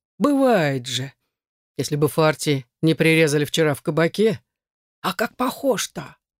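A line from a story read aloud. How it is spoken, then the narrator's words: Joyful guffawing. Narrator (Russian): Первый из свиты наклонился ниже, ткнул в Игара пальцем, радостно захохотал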